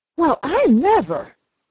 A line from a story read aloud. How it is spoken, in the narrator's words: she exclaimed